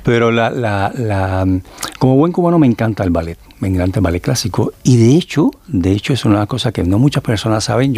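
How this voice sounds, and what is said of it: Cuban Spanish accent. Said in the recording (Spanish): “yo soy cubano, como te puedes dar cuenta por mi acento”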